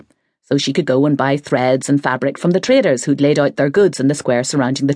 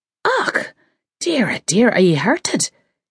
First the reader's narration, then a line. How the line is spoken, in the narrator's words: asked anxiously